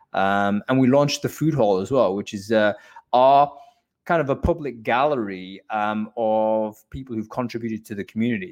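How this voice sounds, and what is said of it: London accent. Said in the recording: “couldn't tell by that fine accent, ... is based in London”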